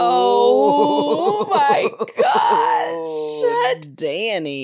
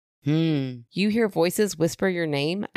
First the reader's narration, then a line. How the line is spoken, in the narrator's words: asked